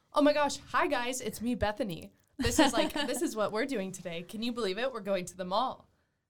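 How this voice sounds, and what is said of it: Put-on bubbly kid-friendly presenter voice. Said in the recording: “a very child-friendly channel ... just like really put on a voice”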